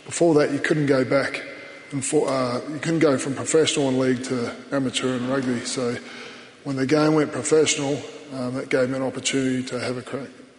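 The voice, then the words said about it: Gravelly voice, Kiwi-Australian accent. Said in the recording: “the Antipodean accent ... You've got the twang and you drop your vowels ... I've got the gravel ... there's a bit of Kiwi Aussie”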